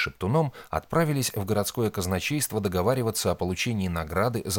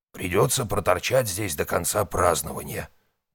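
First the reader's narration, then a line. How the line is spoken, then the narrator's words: Grumbling. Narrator (Russian): проворчал он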